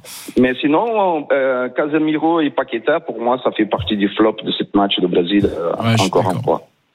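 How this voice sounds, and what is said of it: Brazilian-accented French. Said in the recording (French): “Quel bel accent. ... similaire à celui de Rai, d'ailleurs. ... c'est le sosie vocal de Rai.”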